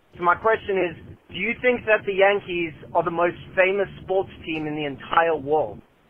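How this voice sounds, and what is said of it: Slight South African Cape Town accent. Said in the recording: “from South Africa ... Great accent. ... South Africa. It seemed like you had a little bit of the Cape Town accent.”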